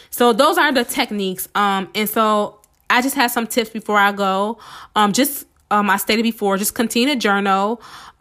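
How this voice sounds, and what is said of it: Hoarse, strained voice from illness. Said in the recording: “I've been under the weather this past week and I feel like I'm losing my voice.”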